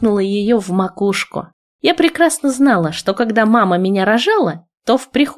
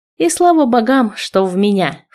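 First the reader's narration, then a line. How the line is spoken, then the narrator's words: Snorting grandmother. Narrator (Russian): фыркнула бабушка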